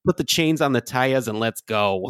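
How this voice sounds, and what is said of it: Poor Minnesotan accent, sounds Boston/New Jersey. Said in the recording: “Minnesotan accent ... That is the most Boston or New Jersey Minnesotan I've ever heard in my life”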